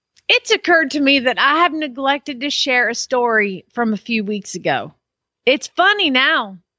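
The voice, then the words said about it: Reading in put-on Southern accent. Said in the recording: “Let's assume they have a Southern accent ... asked me to read in a Southern accent”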